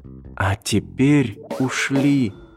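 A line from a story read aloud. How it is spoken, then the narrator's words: Whisper in ear. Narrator (Russian): шепнула на ухо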